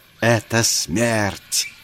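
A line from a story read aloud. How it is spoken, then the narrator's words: Furious fierce hissing. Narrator (Russian): Она с бешенством ожесточенно шипела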